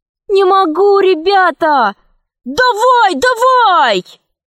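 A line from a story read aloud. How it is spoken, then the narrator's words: Several voices shouting. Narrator (Russian): кричали другие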